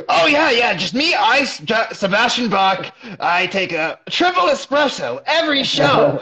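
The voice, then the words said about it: Imitates a rock singer's voice. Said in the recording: “That's actually a good Sebastian Bach impression.”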